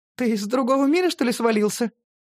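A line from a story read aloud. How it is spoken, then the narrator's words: Giggling. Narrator (Russian): хихикнула Ринаспир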